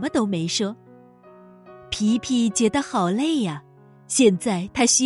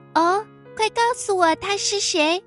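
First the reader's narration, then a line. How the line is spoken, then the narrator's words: Hurried question. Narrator (Chinese): 皮皮连忙问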